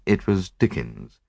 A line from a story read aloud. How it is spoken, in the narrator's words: I murmured, unable to suppress a smile